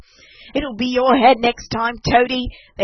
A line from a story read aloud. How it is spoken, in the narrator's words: they called out to him